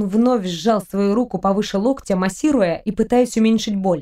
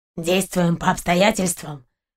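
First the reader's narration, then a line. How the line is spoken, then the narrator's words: Muffled, flat. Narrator (Russian): глухо уточнил Сапер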